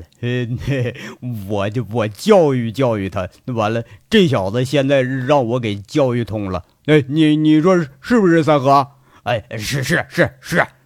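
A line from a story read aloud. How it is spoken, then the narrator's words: Laughing. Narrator (Chinese): 王虎子在那笑着说了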